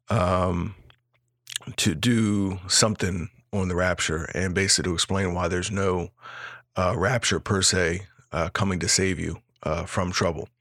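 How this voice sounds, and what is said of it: Raspy, strained voice. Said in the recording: “I'm a little bit raspy, so I'm kind of struggling through this”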